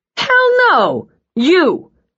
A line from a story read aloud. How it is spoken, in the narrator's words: He shouted over the music